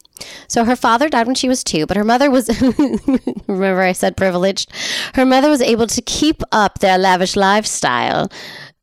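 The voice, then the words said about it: Terrible put-on accent. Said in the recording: “I guess I am not going to stop talking in this terrible accent.”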